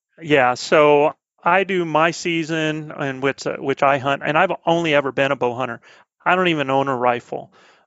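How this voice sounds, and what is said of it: Southern American accent. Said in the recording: “this southern accent I'm picking up on”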